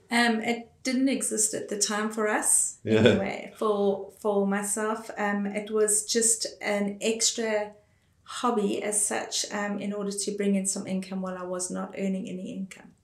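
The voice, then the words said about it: South African accent. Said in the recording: “the accent gives it away. You are South African.”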